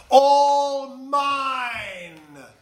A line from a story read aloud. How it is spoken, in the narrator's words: Yertle cried